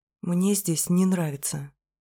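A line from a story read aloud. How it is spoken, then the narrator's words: Quiet confession. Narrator (Russian): признаюсь тихо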